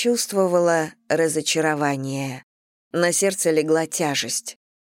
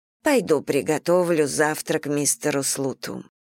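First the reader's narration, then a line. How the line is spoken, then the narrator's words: Flat lifeless voice. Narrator (Russian): произнесла она упавшим безжизненным голосом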